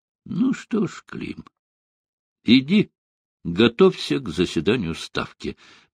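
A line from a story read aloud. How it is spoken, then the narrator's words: Conciliatory tone. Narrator (Russian): примирительным тоном сказал Сталин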